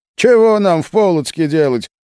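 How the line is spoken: Scoffing grunt. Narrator (Russian): хмыкнул Нащекин

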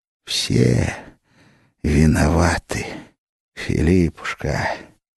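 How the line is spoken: Hissing. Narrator (Russian): Иоанн зашипел

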